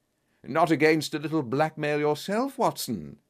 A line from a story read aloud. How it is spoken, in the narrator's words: he chuckled